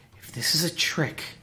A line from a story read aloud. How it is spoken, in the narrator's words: breathed